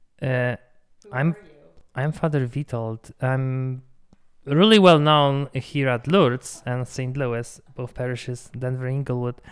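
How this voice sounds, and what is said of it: Polish accent. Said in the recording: “I'm Polish, as you can tell probably if I'm by my accent.”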